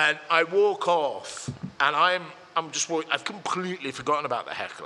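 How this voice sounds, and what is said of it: Usual voice. Nothing is said of it.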